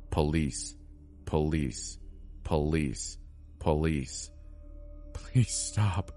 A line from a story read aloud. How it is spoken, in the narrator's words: I heard her whisper to herself